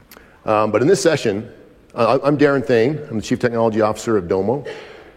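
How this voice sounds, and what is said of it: Raspy, hoarse voice. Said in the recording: “I apologize for my voice. Hopefully my voice will hold out. My voice has been a little raspy, a little laryngitis”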